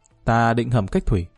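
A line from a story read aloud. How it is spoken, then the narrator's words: Smiling reply. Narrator (Vietnamese): Lý Kỳ mỉm cười đáp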